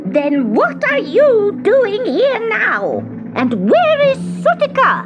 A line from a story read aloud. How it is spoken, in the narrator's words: thundered the witch